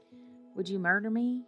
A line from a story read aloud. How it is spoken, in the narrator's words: He stammered